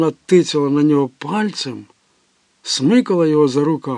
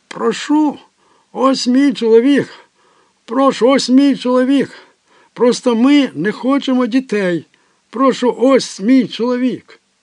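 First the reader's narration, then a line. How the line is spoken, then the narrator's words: Frantic screaming. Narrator (Ukrainian): Тереза несамовито закричала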